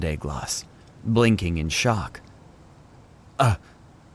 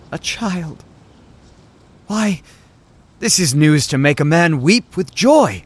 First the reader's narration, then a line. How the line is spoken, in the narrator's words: cried